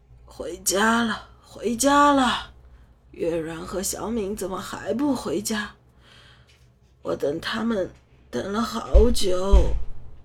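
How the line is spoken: Hoarse. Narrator (Chinese): 随后沙哑的开口

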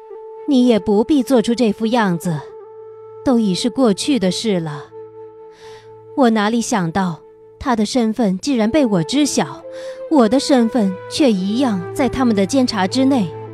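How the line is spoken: Smiling. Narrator (Chinese): 他笑了笑，对他道

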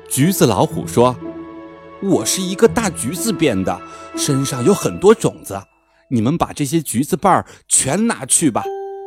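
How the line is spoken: Old man, sighing. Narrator (Chinese): 老爷爷叹口气说

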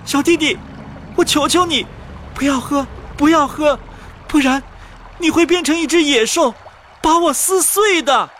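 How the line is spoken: Urgent pleading cry. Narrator (Chinese): 小姐姐连忙喊道

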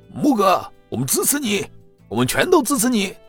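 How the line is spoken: Rousing group cheer. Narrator (Chinese): 秦牧身后的旁支听到这样说，沮丧的神情一扫而光，立即在秦牧后面摇旗呐喊

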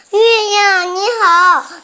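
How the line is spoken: Loud shout. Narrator (Chinese): 他大喊说

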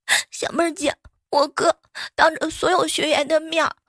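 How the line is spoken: Crying. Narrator (Chinese): 小蕊就哭着

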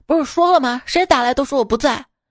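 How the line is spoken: Angry scolding. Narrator (Chinese): 丈夫愤怒的骂道

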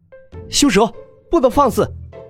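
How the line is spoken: Child shouting. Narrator (Chinese): 被男童喊住

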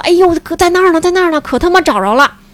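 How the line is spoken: Shouting excitedly. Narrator (Chinese): 就跟那儿叫啊，说

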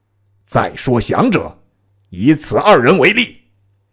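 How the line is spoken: Stern harsh voice. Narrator (Chinese): 厉声曰

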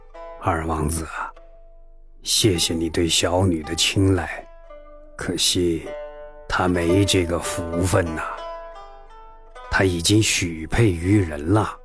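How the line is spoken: Low voice. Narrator (Chinese): 沈万达低声说

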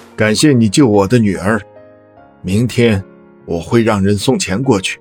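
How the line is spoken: Cold. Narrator (Chinese): 赵先生 冷冷的说着

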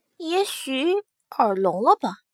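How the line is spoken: Murmuring to oneself. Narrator (Chinese): 莫思柔喃喃自语

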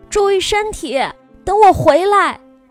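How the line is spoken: Calling after someone. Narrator (Chinese): 我朝姥姥背后喊了一句

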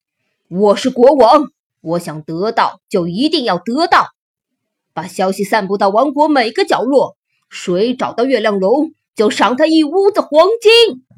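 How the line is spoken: Roaring king. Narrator (Chinese): 国王吼道

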